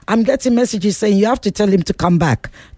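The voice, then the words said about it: Put-on Nigerian accent. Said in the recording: “That's my Nigerian accent.”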